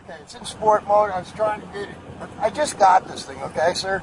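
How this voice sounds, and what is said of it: Florida regional accent. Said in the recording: “I used to live in Florida. I recognize that accent.”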